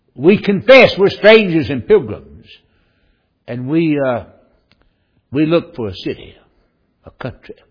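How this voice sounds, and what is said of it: Southern American accent. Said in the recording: “you've got a southern accent ... My accent gives it away.”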